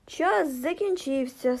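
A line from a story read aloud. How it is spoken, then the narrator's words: Plain. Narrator (Ukrainian): сказав він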